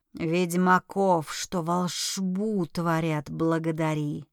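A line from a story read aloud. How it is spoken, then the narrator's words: Tired dragon's hiss. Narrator (Russian): устало прошипел дракон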